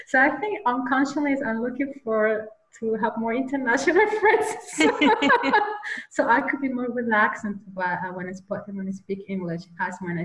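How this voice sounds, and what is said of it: Slight German accent. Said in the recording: “You probably can hear my accent, a slightly accent of German. I do have.”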